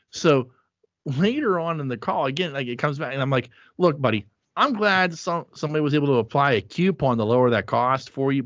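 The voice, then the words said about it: Pittsburgh accent. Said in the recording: “I have a Pittsburgh accent”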